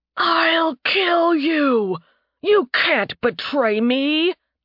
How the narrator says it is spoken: Tarbin roared

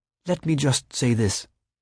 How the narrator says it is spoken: she said, her voice low and serious, her Celtic accent suddenly pronounced

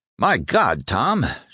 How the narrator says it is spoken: Sherman groaned

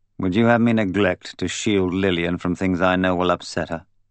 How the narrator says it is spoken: Sidney said coldly

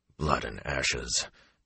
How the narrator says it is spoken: Tom muttered

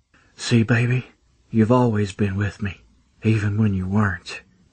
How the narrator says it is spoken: I murmured into her ear

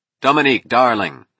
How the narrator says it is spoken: he cried

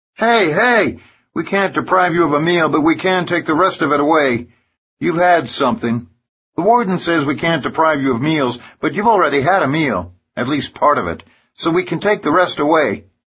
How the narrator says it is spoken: Jeff Landry shouts at 5486

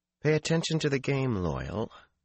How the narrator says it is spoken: Fael murmured

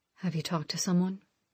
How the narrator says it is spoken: he asked gently

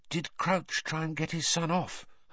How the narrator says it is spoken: Hermione whispered

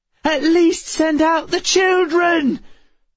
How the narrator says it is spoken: Full-throated shouts from inside the office

